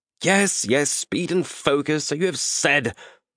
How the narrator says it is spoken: Malcius spat

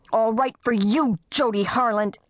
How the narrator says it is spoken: Kirsten shouting over her shoulder as she ran

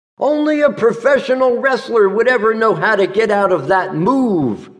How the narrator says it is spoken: she exclaimed

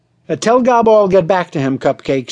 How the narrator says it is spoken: snapped the producer

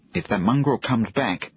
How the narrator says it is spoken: he said

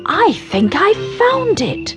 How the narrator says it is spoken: cried Mummy Ted

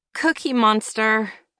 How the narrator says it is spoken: all but whined

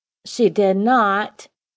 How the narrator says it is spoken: Bo shouted

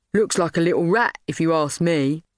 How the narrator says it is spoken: laughed Trevor

